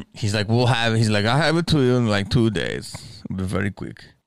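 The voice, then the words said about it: Put-on German accent. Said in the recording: “I'm making him German, he's not German.”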